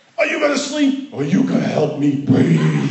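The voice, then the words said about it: Demonic-sounding voice. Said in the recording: “It was almost like a demon voice that came out of her ... it kind of sounded that way”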